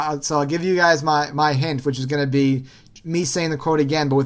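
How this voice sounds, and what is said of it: Usual voice. Nothing is said of it.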